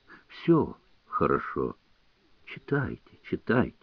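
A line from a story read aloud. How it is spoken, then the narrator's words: Barely audible reply. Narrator (Russian): отвечал Гоголь еле слышно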